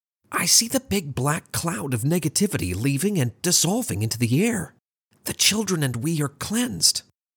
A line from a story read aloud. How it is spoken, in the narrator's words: Arthur called in a whisper